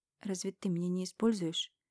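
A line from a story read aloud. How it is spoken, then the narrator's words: Nervous stuttering mumble. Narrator (Russian): Мямлю, слегка заикаясь от волнения и нервов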